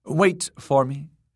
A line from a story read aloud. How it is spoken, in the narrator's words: she told the king's guard curtly